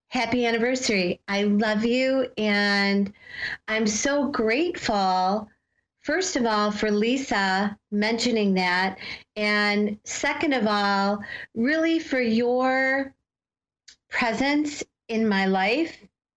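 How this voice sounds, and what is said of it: Teary, emotional voice. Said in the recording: “I'm a little teary here”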